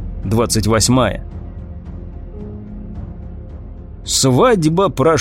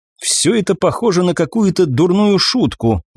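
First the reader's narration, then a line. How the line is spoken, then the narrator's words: Sigh. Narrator (Russian): вздохнула Сандра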